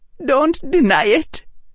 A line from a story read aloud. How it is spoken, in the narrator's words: Padma said, her voice shaking